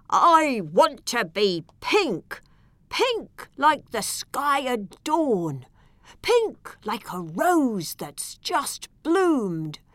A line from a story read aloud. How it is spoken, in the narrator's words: the elephant cried out